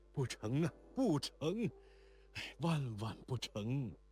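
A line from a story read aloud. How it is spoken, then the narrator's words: Weak old man panting protest. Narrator (Chinese): 国四爷到底年老，气力衰弱，只得歪在椅上喘气，口里还闹着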